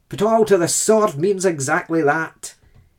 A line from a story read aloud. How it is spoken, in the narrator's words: he is reputed to have barked